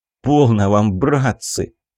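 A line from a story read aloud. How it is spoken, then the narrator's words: Sad sigh. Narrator (Russian): печально вздохнув, сказал Иван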